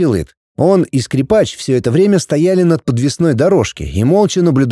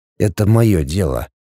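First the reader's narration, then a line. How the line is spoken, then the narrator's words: Quiet but firm. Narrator (Russian): тихо, но твердо произнес Пятый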